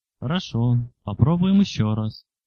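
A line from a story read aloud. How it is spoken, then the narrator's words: Very calm tone. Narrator (Russian): сказал Эремит спокойнейшим тоном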